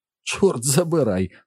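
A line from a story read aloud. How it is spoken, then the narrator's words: Angry exclamation. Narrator (Ukrainian): вигукнув Саллі, дивуючись глибині свого гніву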